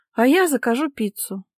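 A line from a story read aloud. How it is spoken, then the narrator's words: Sighed. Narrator (Russian): вздохнула Ника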